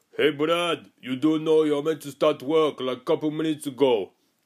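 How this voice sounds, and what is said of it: Put-on Russian accent. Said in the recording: “He's not Russian, by the way. That's just my accent that I think he does”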